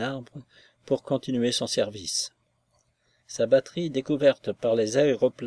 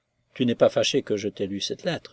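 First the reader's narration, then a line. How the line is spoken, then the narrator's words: Plain. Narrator (French): demanda-t-elle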